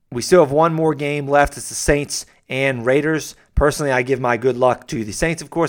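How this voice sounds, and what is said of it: Hoarse, strained voice. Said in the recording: “I'm losing my voice over here”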